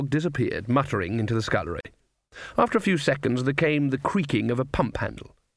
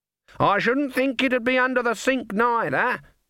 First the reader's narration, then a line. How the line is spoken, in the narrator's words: shouted